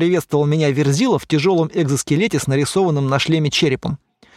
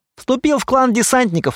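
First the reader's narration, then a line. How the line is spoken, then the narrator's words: Joyful announcement. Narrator (Russian): радостно сообщил Стас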